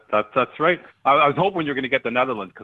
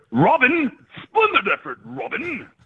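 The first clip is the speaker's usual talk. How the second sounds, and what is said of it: Soccer announcer voice. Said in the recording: “I wanted to use my soccer announcer voice.”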